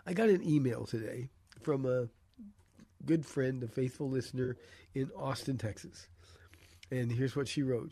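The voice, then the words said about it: Hoarse, nearly lost voice. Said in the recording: “I don't have a voice, so I apologize in advance for my voice... my voice is about gone”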